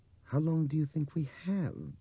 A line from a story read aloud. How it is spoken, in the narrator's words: Bob asked her gently